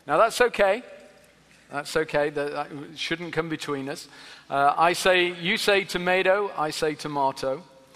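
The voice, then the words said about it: Non-local accent. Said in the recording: “you've already noticed by how I'm speaking that I'm not from these parts, by this accent of mine”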